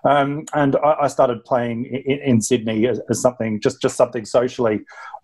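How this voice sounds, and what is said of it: Australian-tinged British accent. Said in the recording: “I'm British, but spent a big chunk of my life, grew up in Australia, so my accent might give me away a bit there.”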